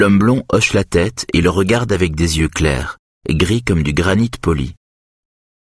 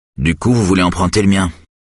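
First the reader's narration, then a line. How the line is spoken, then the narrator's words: Curt. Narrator (French): lance Eric d'un ton sec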